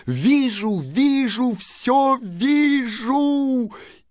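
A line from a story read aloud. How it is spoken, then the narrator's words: Sudden shout. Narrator (Russian): Вдруг она закричала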